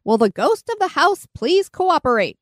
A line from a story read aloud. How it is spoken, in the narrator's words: he yelled